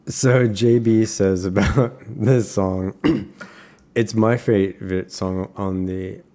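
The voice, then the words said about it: Attempted French accent. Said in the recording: “Are you doing a French accent? ... I tried.”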